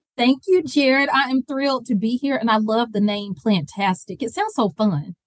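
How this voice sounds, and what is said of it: Southern US Georgia accent. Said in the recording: “your Georgia accent”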